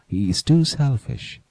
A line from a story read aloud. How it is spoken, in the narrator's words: she said